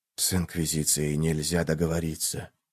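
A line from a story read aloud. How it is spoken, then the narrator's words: Repeated whisper. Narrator (Russian): повторил шепот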